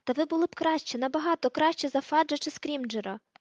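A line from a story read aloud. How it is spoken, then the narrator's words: Exclaimed. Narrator (Ukrainian): вигукнув Гаррі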